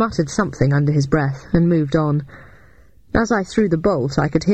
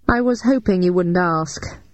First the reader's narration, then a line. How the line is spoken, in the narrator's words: sighed